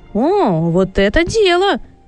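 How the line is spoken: Joyful exclamation. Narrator (Russian): радостно воскликнул Сэмюэль

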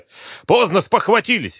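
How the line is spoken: Barked snap. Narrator (Russian): рявкнул премьер

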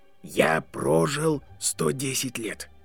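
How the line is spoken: Quiet, old wizard. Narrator (Russian): тихо сказал волшебник

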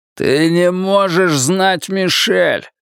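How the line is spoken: Growled. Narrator (Russian): прорычал он

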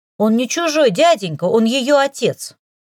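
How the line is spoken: Defiant shout. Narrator (Russian): С вызовом в голосе выкрикнула Лика

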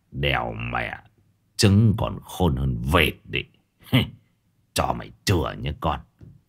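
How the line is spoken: Old man's relieved sneer. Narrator (Vietnamese): ông cụ thở phào rồi cười khẩy

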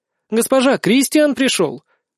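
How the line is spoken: Joyful exclamation. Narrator (Russian): воскликнула радостно

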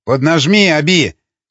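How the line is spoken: Shout. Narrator (Russian): крикнул он

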